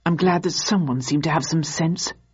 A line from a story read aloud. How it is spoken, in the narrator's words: murmured one of the SO1 agents